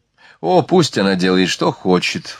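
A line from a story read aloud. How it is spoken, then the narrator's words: Wounded sigh. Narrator (Russian): вздохнула Марианна, уязвленная пренебрежением цыганки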